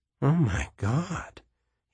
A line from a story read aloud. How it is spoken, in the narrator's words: he whispered